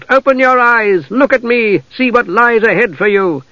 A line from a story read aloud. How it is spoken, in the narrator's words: shout